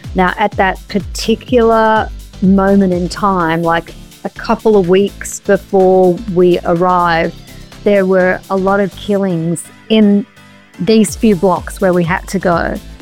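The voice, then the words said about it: Strong Australian accent. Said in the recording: “you think my accent is strong now, whoa, my Aussie accent”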